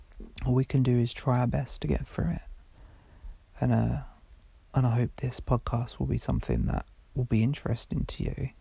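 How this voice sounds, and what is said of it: Quiet, croaky voice. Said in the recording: “my voice is a bit quiet and croaky”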